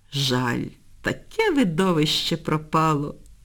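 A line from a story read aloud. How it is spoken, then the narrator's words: Feigned sigh. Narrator (Ukrainian): вдавано зітхнула Півоня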